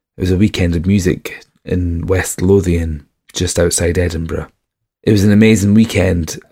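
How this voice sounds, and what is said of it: Worn-out, damaged voice. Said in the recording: “a very damaged Pictish trail ... you might be able to tell from my voice I am totally destroyed now”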